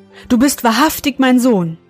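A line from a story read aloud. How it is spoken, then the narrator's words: Old man calling out. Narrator (German): rief der Alte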